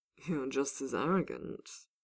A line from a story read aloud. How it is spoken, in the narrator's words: Bull chuckled